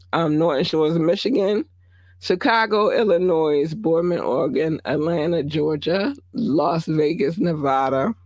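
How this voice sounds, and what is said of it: Strained, fading hoarse voice. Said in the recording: “I'm not going to have a voice tomorrow ... I'm already losing my voice right now ... my voice going a little ham”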